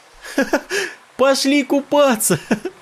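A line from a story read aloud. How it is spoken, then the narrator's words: Laughing shout. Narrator (Russian): Смеясь, крикнула Надя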